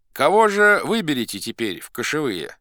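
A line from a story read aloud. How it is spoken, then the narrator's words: Plain, elders in unison. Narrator (Russian): сказали старшины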